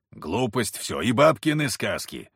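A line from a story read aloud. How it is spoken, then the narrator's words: Grumbling mutter. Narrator (Russian): пробурчал Кузьма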